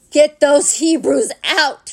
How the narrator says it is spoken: he cried

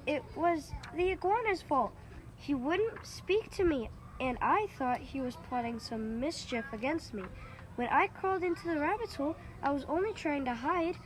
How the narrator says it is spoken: cried

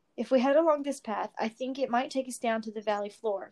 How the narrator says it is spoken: said

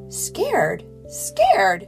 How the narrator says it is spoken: exclaimed Sarah

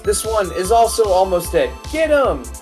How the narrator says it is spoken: the doctor yells

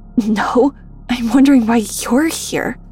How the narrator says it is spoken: croaked Bernard with the stench of alcohol wafting off his breath

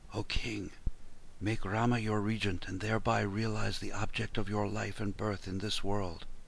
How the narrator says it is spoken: It seemed as if old age were whispering into his ears

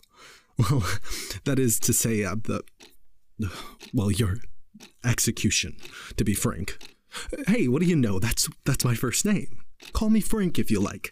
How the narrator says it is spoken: said with a self-conscious chuckle

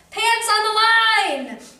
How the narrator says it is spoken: yelled Duck

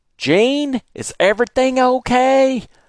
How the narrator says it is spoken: I heard Brother Nelson yell from his house

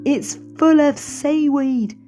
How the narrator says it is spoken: shouted Len

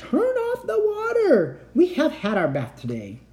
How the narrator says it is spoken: The people in the house next door cried

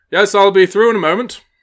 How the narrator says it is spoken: a gentleman shout back

